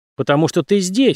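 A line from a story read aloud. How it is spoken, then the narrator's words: Plain. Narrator (Russian): сказал он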